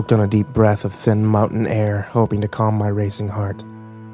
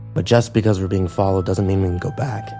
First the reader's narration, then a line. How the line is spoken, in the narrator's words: I said